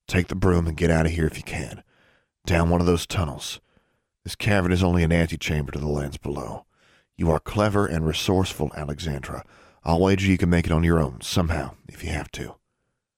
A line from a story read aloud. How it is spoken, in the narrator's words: went on in a gentler tone